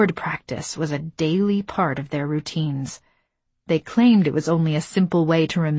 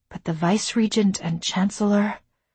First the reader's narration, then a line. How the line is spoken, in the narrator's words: A sigh hissed through my teeth